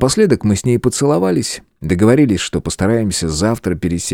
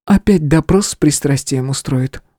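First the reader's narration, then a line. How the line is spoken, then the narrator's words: Sigh. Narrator (Russian): вздохнула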